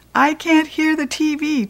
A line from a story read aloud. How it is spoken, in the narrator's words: Ty hollered